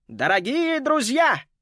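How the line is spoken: Loud shout through megaphone. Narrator (Russian): крикнул он, и громкий голос из мегафона разнесся по всей набережной

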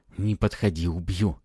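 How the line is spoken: Trembling warning. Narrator (Russian): Дрожащим голосом предупредил он

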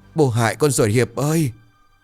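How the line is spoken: Wailing, sobbing. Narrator (Vietnamese): Lão Tần gào khóc

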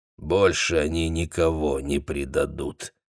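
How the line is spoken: Grim. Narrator (Russian): мрачно проговорил лесник

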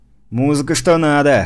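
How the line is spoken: Amused snort. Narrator (Russian): хмыкнул я

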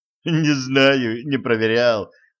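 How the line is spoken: Laughing. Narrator (Russian): засмеялся Ланс

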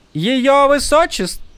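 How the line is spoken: Loud proclamation. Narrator (Russian): громко провозгласила Тин

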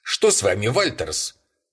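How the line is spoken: Sharp question. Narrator (Russian): резко спросил его Бэйнс

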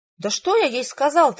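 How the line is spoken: Irritated exclamation. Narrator (Russian): раздраженно воскликнул Рэндольф

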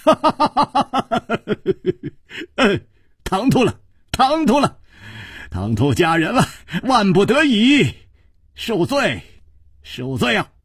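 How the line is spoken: Laughing. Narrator (Chinese): 楚留香笑道

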